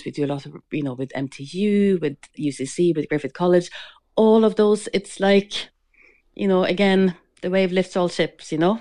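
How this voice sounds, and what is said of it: Norwegian accent blended with Cork accent. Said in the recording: “Your accent is a wonderful blend of Cork and Norway. It's incredible.”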